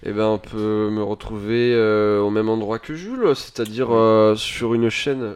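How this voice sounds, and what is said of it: Speaks in a put-on accent. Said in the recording (French): “Je sais pas pourquoi je prends un accent.”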